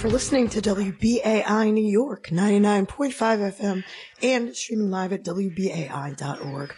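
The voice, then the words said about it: Rough, strained voice. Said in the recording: “you can hear my voice is in pretty rough shape today ... you are almost speechless”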